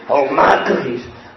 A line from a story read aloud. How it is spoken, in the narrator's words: He growled